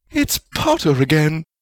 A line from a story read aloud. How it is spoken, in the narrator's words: Rowena exclaimed